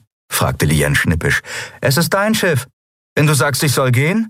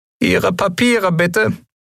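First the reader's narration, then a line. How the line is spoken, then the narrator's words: Squeaky commanding voice. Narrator (German): piepste er befehlsgewohnt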